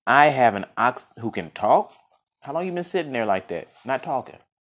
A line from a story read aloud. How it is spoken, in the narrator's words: the astonished farmer, his jaw dropping, exclaimed